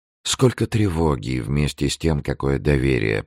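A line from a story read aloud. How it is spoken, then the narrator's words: Whisper. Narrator (Russian): прошептал граф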